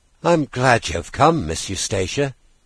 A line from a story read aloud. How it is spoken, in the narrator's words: said with a sigh of relief